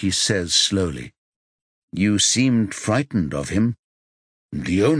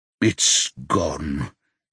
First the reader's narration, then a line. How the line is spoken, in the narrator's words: he says in a low voice